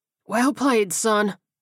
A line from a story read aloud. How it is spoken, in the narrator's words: Harlan wheezed